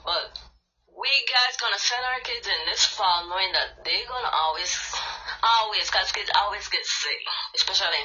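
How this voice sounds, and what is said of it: Deep Creole accent. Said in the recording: “sorry for my, um, my accent because I'm um, a little bit of Creole, deep Creole”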